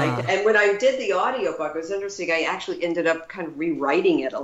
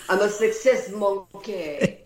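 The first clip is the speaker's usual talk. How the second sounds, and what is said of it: Put-on French accent. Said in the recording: “when you say it with a French accent”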